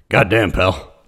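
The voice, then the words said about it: Vince McMahon impression. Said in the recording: “Your Vince McMahon impression”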